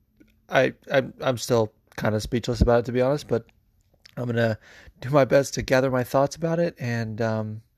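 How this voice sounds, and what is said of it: Hoarse, strained voice. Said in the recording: “As you can probably hear, my voice is a little shot ... from screaming after that main event last night”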